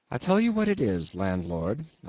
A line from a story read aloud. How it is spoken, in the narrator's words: I said quite calmly